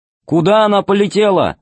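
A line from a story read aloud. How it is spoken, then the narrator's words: Loud over engine noise. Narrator (Russian): спросил он громко, перекрывая жужжание двигателя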